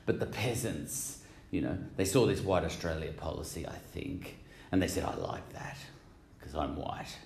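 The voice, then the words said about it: Exaggerated put-on accent. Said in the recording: “excuse my accent ... I'm banging this accent on a little. I like talking like this ... I don't talk like this exactly in real life”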